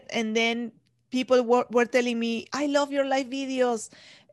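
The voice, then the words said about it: Speaker's own foreign accent. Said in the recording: “She loves my accent. ... they don't mind my accent”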